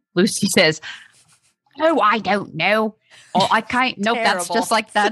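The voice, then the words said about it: Attempted New Zealand accent. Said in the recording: “read her response in the best Kiwi accent I have ... sounds like Emma Watson ... Kiwi's tough”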